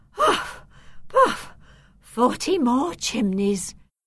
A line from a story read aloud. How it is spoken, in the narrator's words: sighed